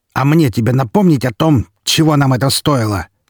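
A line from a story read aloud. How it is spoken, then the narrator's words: Harsher questioning tone. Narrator (Russian): более жестким тоном спросил в ответ Распутин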